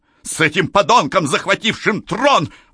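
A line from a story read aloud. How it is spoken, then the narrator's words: Exclamation. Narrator (Russian): воскликнула царица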